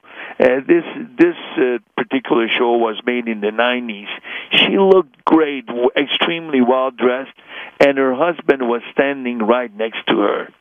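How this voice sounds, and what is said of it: Hungarian accent. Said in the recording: “by my accent, that I'm also Hungarian ... Zsa Zsa Gabor sounds just like you”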